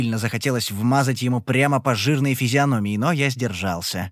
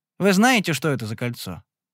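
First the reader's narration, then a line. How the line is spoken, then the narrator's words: Dry question. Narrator (Russian): сухо спросил я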